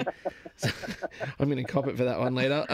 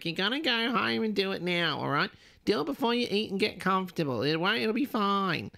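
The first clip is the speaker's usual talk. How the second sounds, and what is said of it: Imitates another person's voice. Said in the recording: “that was a terrible impression ... sounds just like her”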